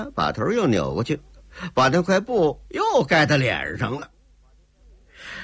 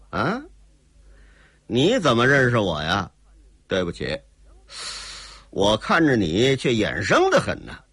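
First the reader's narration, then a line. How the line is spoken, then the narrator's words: Cold laugh. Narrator (Chinese): 姓齐的冷冷一笑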